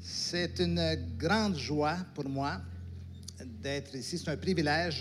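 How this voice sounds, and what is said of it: Slight Québécois French accent. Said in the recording (French): “j'ai un accent, un léger accent particulier ... Quels sont ceux qui connaissent le Québec ici?”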